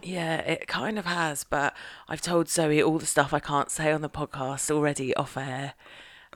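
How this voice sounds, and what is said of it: Hoarse, nearly lost voice. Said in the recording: “I've got no voice. ... It's a combination of a weekend in Birmingham and I think maybe a tiny bit of a cold. ... lose your voice.”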